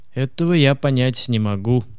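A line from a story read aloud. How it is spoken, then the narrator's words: Gloomy. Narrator (Russian): мрачно произнес Карл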